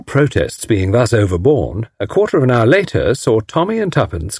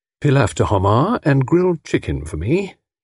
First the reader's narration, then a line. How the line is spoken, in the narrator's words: he murmured